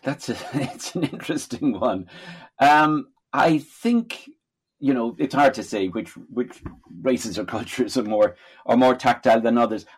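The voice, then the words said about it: Irish accent. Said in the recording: “we can hear from your accent you're Irish born”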